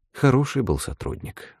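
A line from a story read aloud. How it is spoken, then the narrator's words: Sighing. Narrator (Russian): вздохнул Эрдви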